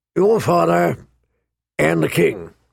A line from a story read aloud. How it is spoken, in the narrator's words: he rumbled